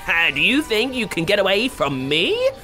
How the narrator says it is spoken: cackled the witch

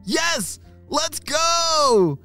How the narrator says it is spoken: shouted Arlo and Callum together

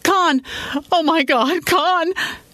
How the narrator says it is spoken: she screamed

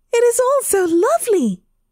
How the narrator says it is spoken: she cried

